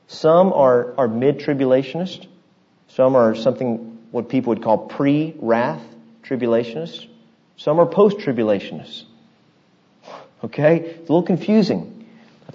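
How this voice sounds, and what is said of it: Deliberately slow speech. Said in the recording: “I'm talking very slow”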